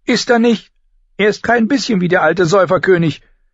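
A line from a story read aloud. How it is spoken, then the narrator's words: Grief-stricken screaming. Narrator (German): schrie sie ihre Schwester an und vergaß sich ganz in ihrer Trauer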